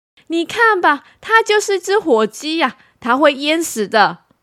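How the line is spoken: Neighbor shouting. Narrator (Chinese): 鸭妈妈的邻居喊说

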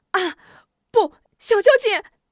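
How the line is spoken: Shouting. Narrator (Chinese): 喊着

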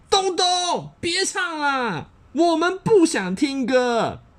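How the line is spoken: Angry shouting. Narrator (Chinese): 他们全都生气的 … 大吼

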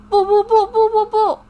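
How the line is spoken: Furious shouting. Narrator (Chinese): 气急败坏地喊着

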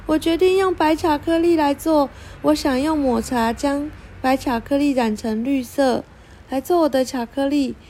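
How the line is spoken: Exclaiming, then speaking. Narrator (Chinese): 蜜莉哦的叫了一声，然后说

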